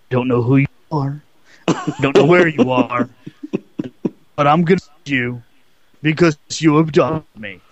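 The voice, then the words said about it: Imitates another person's voice. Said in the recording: “one of those Liam Neeson Taken things ... sorry, I don't have his accent.”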